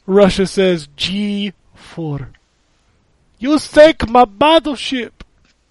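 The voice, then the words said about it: Mixed multinational put-on accent. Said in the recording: “that accent ... a multicultural accent ... like it might have been like four or five different nationalities mixed in”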